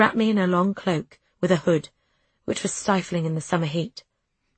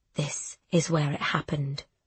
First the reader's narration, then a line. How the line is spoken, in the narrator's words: he whispered